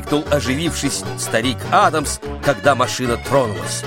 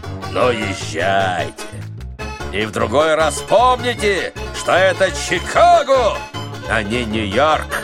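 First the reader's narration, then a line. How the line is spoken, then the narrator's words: Giant's booming deep laugh. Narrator (Russian): гигант захохотал страшным басом и сказал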